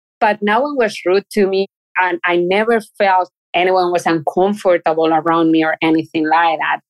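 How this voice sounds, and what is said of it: Spanish accent in English. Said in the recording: “I'm from Spain and everyone can tell because of my accent.”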